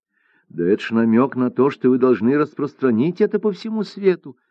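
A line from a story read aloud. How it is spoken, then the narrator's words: Exclamation. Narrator (Russian): воскликнула Цзи-Джи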